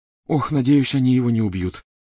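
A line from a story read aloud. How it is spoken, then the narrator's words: Groaning. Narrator (Russian): застонала Гермиона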